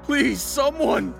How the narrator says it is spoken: I shouted at the top of my lungs

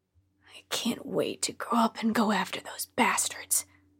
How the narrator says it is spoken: he often muttered under his breath

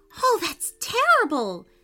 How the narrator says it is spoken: she cried

